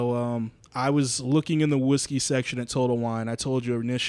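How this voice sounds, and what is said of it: Usual voice. Nothing is said of it.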